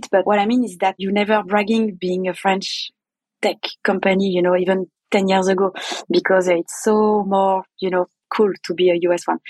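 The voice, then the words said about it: French accent. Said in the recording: “my accent is, is pretty unmasking it ... I'm French”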